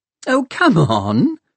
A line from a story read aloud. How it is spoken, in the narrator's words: she laughed